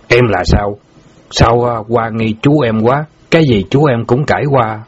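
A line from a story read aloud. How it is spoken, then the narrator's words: Harsh stressed voice. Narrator (Vietnamese): Bảy núi gằn giọng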